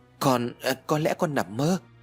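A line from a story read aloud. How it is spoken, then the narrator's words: Stammering reply. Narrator (Vietnamese): Ái lắp bắp trả lời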